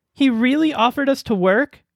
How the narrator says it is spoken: asked excitedly

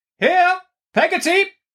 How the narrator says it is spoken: cried Miss Betsy

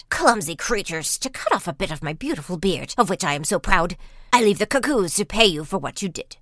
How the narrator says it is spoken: grumbled out

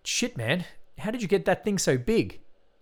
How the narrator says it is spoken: he exclaimed

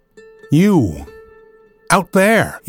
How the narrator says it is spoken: cried in a trembling voice

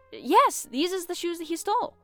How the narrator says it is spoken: he exclaimed

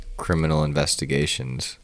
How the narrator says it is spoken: I mumbled

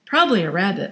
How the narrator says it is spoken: Michael said

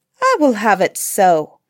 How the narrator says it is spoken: replied the queen

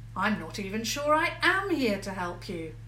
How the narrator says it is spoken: George shouted, crossly

